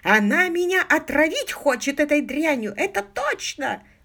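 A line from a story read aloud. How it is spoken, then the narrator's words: Exclamation. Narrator (Russian): воскликнул Гомер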